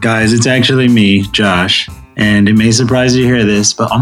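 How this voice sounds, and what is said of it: Usual voice. Nothing is said of it.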